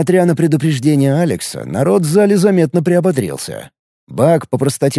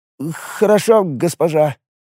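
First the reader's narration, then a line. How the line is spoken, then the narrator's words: Sheepish babbling. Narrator (Russian): пролепетал Бак, явно жалея, что влез со своим предложением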